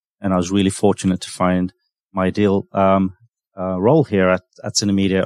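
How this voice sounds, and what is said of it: London English accent. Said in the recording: “with the headquarters in London, where my family are, I can probably tell from my accent a little bit”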